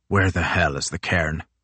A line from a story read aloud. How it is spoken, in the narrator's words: snapped